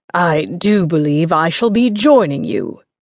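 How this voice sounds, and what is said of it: Bad put-on gallant English accent. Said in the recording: “a horrendous attempt at a gallant English accent”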